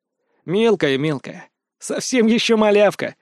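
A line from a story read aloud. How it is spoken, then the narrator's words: Laughing. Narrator (Russian): рассмеялся я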